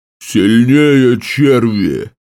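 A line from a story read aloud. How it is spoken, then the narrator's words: Roared. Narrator (Russian): проревел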